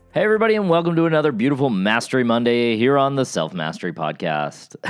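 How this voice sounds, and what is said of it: Polished radio announcer voice. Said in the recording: “I have that radio voice ... that's not how I talk in real life”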